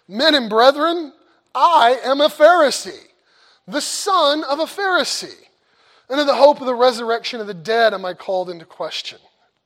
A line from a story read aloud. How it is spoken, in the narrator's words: he cried out in the council